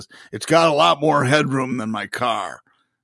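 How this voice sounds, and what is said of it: Imitates another person's voice. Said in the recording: “that was a good impression of him”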